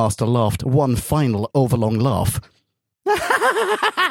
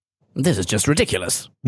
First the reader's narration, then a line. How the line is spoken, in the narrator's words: muttered the third doctor